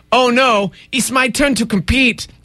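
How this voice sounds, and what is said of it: Put-on Russian accent. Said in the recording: “That's my other Russian accent. ... Different dialect?”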